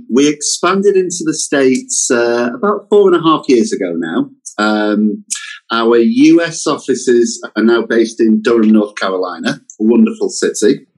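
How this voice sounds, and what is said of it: British accent. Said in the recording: “my accent does suggest that we are a British company”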